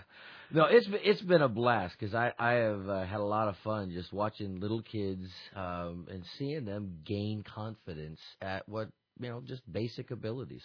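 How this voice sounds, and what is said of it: Tired, strained voice. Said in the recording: “my voice is a little tired... Oh, it sounds that way.”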